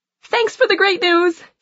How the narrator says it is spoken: she squeals

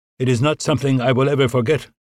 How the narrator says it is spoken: Albanese replied evenly

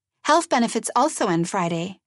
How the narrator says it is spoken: Frask chirped

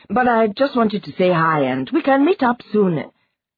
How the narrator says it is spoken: she added quickly

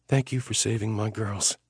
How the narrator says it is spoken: she whispered to me

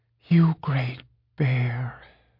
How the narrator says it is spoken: whispered

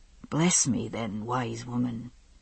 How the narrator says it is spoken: he said softly

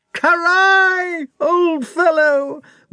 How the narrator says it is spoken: wailed Nikolai

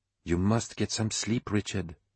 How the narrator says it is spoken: she said quietly

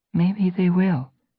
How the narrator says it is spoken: Brightheart suggested gently

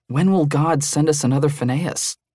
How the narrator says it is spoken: Yoel sighed

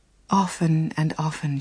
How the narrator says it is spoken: she said

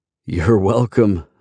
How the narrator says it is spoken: I laugh

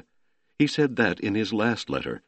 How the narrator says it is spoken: Metzdorf cried

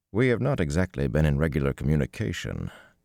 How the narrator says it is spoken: Tom said dryly

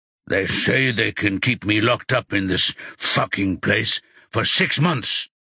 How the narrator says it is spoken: Rocky says in a gruff voice

